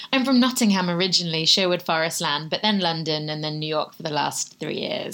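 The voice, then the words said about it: Sultry British accent. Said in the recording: “lovely, sultry British accent”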